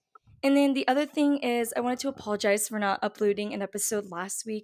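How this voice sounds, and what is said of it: Congested, slightly strange-sounding voice. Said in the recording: “my voice sounds a little bit strange, I am a little congested”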